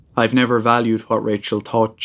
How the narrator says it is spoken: she said

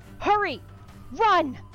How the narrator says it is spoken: She shouts

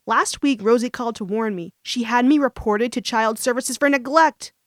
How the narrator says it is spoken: exclaimed

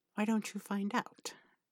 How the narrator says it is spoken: Aziraphale purrs

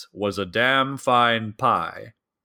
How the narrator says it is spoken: he said in a booming voice

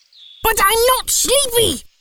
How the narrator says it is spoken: cried Baby Owl

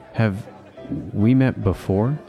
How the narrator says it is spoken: Teddy stammered to Dolores

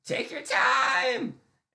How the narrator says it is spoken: I yell at Miles

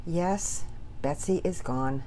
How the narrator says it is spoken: Daddy Peters said softly

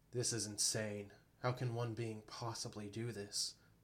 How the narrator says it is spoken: Bo muttered

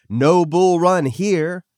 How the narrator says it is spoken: They yelled

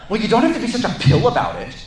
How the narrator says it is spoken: she snapped

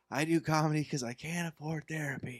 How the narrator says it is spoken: usually yells

